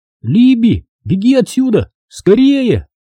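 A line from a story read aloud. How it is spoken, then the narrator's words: Shout. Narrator (Russian): крикнул я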